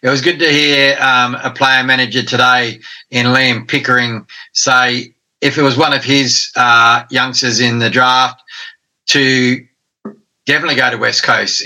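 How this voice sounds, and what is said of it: Hoarse, fading voice. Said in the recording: “I'm just losing my voice here.”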